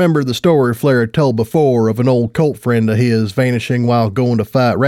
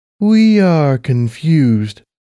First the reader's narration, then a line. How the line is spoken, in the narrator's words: Platinum Hayes said slowly, her voice echoing through the cavernous hallway